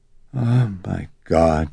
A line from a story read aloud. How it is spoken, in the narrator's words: she kept sighing